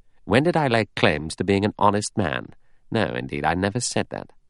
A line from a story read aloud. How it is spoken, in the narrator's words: Philip murmured